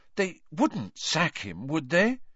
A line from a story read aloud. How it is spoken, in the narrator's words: said Hermione anxiously